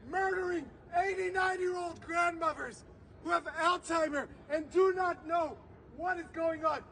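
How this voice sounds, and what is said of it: Emotional, strained speaking voice. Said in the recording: “I'm sorry I'm getting emotional. I'm only emotional”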